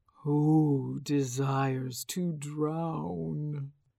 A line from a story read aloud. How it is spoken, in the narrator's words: asked the dragon spirit in a low, resonant voice